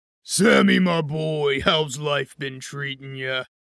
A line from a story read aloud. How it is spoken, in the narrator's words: Rhino barked in a deep, gravelly voice